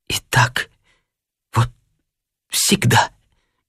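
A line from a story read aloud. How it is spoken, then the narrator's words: Tearful mumbling. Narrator (Russian): бормотала она сквозь слезы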